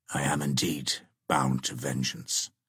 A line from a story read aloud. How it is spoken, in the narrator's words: murmured Cedric